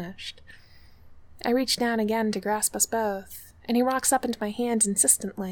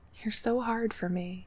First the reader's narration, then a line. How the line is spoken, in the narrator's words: I murmur